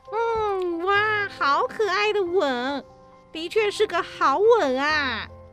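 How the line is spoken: Mock-expert admiration. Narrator (Chinese): 斯奈特装作很内行的发出赞叹

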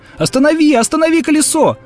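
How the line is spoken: Terrified scream, changed voice. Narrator (Russian): закричал мистер Куджер, но уже не такой, как прежде, и уже другим голосом, в ужасе

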